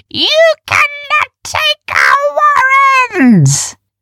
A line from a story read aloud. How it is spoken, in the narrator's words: she screamed